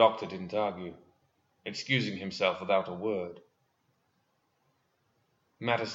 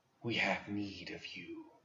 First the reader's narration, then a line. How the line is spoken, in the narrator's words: he said to her, his voice dry and wispy